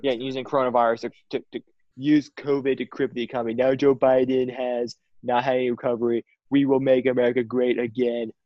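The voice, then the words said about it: Donald Trump impression. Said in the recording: “We love an impersonation, guys. ... I'm so bad at the Trump impersonation.”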